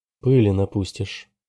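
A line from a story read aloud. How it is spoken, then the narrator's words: Calm. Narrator (Russian): спокойно сказала Роза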